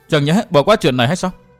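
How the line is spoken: Exhaling, harsh. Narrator (Vietnamese): Thúy Hà thở hắt ra gay gắt nói

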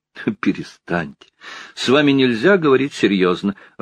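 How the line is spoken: Loud laughing speech. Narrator (Russian): расхохоталась

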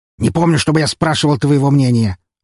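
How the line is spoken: Snapping retort. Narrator (Russian): огрызнулся юрист

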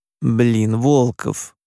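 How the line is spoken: Moaning. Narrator (Russian): простонала Юла

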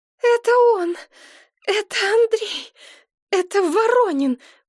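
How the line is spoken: Sobbing, barely able to speak. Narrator (Russian): прорыдала Машка, едва обретя дар речи

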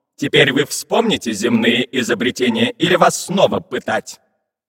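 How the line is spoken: Menacing question. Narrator (Russian): грозно спросил у пиратов марсианский капитан космического корабля

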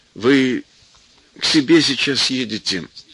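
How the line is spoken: Soft question. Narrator (Russian): кто-то негромко спросил

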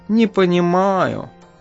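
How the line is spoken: Cat sighing. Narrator (Russian): вздохнул кот

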